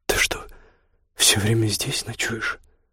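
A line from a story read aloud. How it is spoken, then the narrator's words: Quiet question. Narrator (Russian): переспросила тихонько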